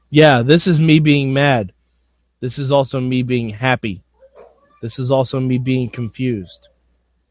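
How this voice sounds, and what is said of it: Flat, emotionless monotone voice. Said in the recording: “the deadest of eyes ever ... This is my Tanner impression. ... how do you not know how to emote”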